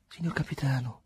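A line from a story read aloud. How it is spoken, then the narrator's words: Tired voice. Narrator (Italian): disse Angustina con voce stanca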